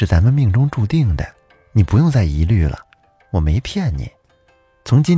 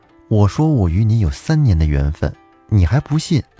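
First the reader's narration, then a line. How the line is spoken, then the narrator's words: Smiling woman. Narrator (Chinese): 那个女子笑眯眯的跟他说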